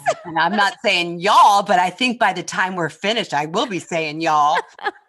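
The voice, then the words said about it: Northeast US (Philadelphia) accent. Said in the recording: “You can tell from my Northeast accent.”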